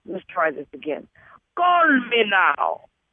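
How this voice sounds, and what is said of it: Attempted Jamaican accent. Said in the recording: “I'm trying to do my Jamaican accent.”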